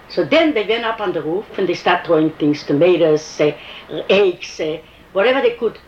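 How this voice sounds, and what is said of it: Foreign accent, heard as Russian. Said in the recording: “Why don't you go back to Russia? Because of my accent”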